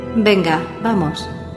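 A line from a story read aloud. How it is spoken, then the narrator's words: Plain. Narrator (Spanish): me dijo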